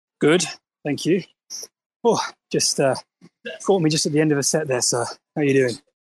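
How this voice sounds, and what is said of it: Out of breath, panting. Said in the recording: “out of breath”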